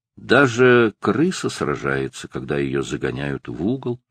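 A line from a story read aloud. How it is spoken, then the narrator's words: Gloomy. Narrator (Russian): мрачно сказал он наконец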